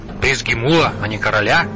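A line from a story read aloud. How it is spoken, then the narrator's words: Plain. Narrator (Russian): спросил Лотар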